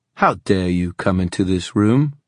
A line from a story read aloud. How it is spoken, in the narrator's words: His voice was sharp, imperious